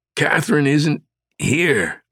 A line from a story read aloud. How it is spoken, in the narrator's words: Langdon managed through clenched teeth